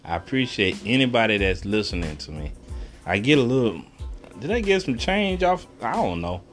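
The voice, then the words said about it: Texas accent. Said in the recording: “Excuse my accent, I am from Texas”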